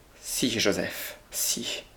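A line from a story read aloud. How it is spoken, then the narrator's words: Trembling male voice. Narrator (French): dit-il d'une voix tremblante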